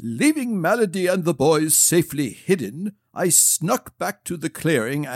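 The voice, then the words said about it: Dramatic storytelling voice. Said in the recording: “using a very dramatic voice”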